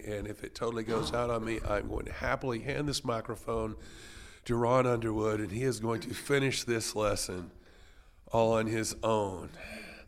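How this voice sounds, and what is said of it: Weak voice. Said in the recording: “I am recovering from bronchitis, which explains why my voice is a little weak today.”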